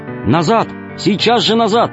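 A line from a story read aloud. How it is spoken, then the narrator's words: Shout. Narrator (Russian): крикнула Алиса собаке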